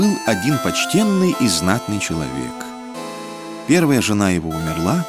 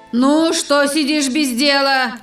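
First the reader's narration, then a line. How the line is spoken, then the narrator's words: Angry shouting. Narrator (Russian): кричала она на падчерицу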